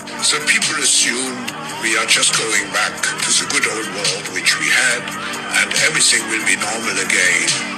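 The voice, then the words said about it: Strong accent, hard to understand. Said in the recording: “It's kind of hard to understand because his accent. ... everybody listens knows his fucking accent”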